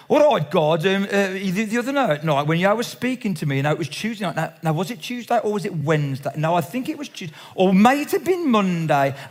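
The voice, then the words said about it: Broad Black Country accent. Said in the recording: “he's praying in a very broad Black Country accent.”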